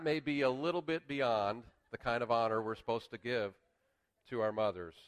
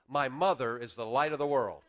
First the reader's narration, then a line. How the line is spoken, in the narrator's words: the boy's face lit up and he spoke out in a loud and clear voice